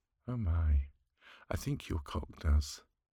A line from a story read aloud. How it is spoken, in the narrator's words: she giggled